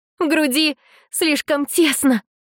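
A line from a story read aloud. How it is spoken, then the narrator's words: Strained through pain. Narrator (Russian): превозмогая боль, выдавила из себя она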